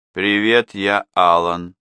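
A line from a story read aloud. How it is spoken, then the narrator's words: Strangely monotone voice. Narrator (Russian): сказал он странно монотонным голосом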